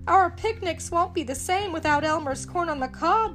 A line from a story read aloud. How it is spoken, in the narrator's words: said Porky with a sigh